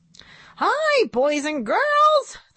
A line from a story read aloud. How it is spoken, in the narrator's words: the monkey puppet said in a squeaky voice